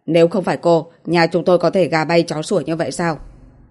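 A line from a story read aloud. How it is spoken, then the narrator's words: Angry. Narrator (Vietnamese): Niếp Duy Bình tức giận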